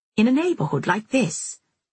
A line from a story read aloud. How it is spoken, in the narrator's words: I cried